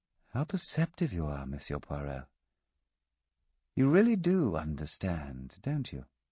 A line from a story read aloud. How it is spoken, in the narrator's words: In a thoughtful voice, she said